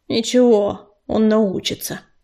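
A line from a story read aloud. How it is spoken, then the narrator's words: Gruff mutter. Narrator (Russian): буркнула она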